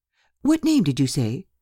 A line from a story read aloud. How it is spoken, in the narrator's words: cried Mrs